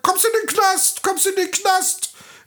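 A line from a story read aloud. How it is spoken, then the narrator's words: Policeman calling repeatedly. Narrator (German): ein Polizist, der rief die ganze Zeit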